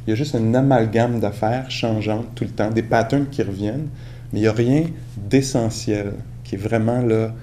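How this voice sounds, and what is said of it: Québécois French accent. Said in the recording (French): “mon accent, par exemple, québécois”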